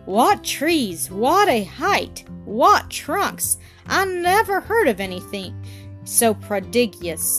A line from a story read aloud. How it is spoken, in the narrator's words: exclaimed one and all